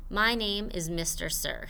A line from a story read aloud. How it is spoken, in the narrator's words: he said